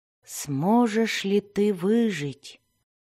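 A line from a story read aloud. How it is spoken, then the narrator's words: Whisper. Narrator (Russian): прошептал Зак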